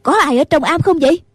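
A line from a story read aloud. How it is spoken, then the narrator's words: Shouting. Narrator (Vietnamese): Nghi Hòa la lên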